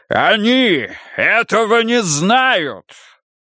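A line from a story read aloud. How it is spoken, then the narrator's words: Shouting. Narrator (Russian): прокричал он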